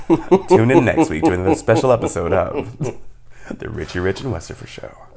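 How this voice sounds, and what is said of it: Mock radio announcer voice. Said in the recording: “That's my attempt at an announcer voice.”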